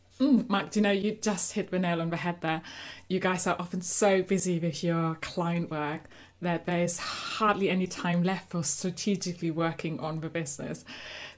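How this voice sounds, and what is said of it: German accent. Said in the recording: “my accent, I'm actually originally from Germany”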